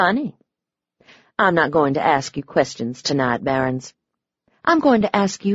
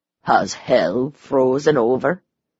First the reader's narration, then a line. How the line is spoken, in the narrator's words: he said dryly